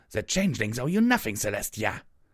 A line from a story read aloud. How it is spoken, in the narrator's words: the magical image of Queen Chrysalis spat